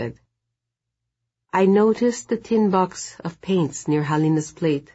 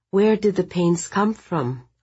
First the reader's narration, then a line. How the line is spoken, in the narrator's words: I asked, trying to keep my voice steady